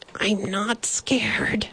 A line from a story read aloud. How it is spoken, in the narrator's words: he whispered loudly